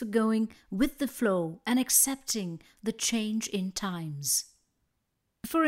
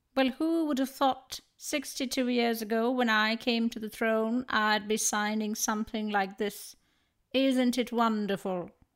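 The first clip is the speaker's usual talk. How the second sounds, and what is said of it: Poor imitation of the Queen. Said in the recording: “that was my terrible imitation of the Queen”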